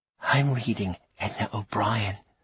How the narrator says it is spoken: said Miss Ambrosia, lowering her voice

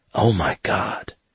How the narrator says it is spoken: Dixie whispered

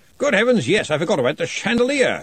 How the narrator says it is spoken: exclaimed Redcully

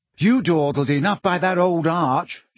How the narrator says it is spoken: she said crossly

